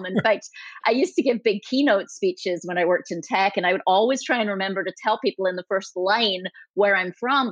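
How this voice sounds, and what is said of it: Mixed Scottish-Californian accent. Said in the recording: “this is the strangest accent in the world ... my accent is the most distracting accent in the world ... South Africa, Canada, it's not quite right ... a Scottish accent. I actually grew up in Scotland, and then you move it to California for 20 plus years”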